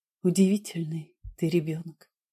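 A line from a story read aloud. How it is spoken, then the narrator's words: Whispered. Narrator (Russian): сказала я шепотом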